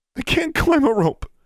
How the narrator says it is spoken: she sobbed

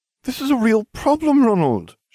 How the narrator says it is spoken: she cried

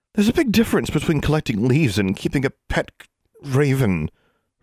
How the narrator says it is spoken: her mother exclaimed

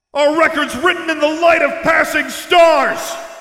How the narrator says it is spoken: Luke shouted to the high heavens

